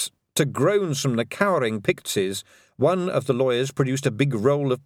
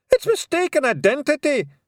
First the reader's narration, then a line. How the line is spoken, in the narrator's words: shouted Rob Anybody